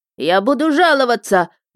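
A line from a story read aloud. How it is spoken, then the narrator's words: Shrill shout. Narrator (Russian): визгливо закричал он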